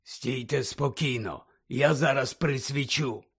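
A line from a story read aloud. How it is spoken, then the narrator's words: Whispered. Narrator (Ukrainian): прошепотів Муді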